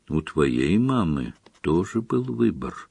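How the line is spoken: Gentle. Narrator (Russian): мягко проговорил Дамблдор

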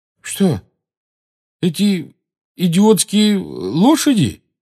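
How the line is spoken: Uncertain question. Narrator (Russian): неуверенно спросил Рон

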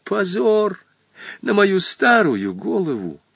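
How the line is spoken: Barely audible whimper. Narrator (Russian): еле слышно заскулил теперь Хоттабыч

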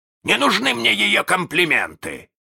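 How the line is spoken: Offended bark. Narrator (Russian): рявкнул с обидой Крюк

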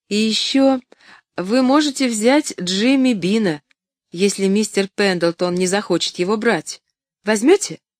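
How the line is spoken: Forced laugh. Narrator (Russian): Доктор Чилтон неестественно засмеялся

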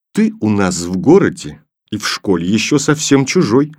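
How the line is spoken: Plain. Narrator (Russian): сказал Филька

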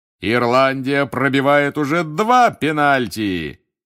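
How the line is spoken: Loud bark. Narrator (Russian): гаркнул Бэгман

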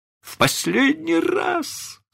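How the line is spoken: Moaning. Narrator (Russian): стонал мистер Дарлинг

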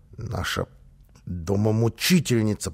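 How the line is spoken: Child's hiss. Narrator (Russian): прошипел малыш

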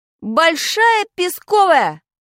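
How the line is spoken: Quick shout. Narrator (Russian): крикнул я, не раздумывая

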